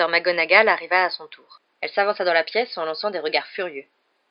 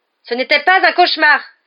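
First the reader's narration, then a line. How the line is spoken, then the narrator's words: Exclaimed. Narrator (French): s'écria Ron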